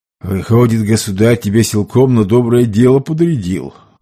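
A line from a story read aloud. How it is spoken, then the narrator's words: Sighed. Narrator (Russian): вздохнул Сомов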